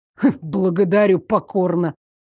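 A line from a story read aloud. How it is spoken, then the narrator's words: Stifled snort. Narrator (Russian): сдавленно фыркнул Лоренс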